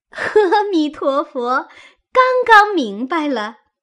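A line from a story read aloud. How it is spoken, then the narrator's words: Laughing. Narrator (Chinese): 湘云笑道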